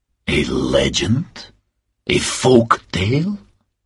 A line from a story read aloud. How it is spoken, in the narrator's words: asked Marescu in a low voice